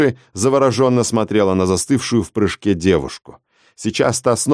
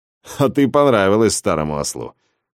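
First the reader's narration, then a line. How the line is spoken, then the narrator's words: Chuckling. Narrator (Russian): хохотнул Годдер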